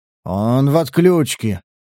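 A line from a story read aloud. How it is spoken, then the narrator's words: Gruff mutter. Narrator (Russian): буркнул Сатурн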